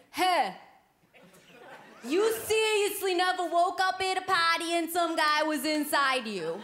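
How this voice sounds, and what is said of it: Thick Boston accent. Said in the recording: “this thick Boston accent”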